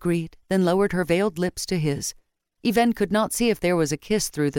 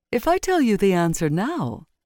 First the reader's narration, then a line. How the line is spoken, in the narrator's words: she said in a voice still ringing with her laughter